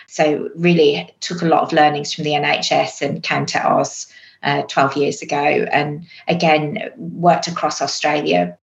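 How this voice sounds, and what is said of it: English accent. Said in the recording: “you'll probably guess from the accent, I'm also English.”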